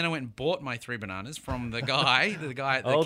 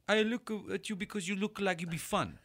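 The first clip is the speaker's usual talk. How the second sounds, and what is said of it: Poor put-on French accent. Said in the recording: “That's a terrible French. Fuck, I'm bad with accents.”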